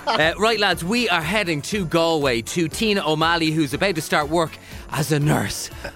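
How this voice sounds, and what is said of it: Out of breath, breathless speech. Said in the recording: “I'm out of breath.”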